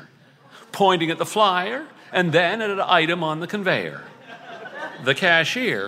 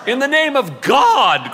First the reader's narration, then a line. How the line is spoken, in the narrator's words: cried Dave